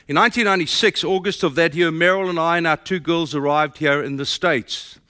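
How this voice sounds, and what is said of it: South African accent. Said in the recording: “My accent tells you I'm from South Africa.”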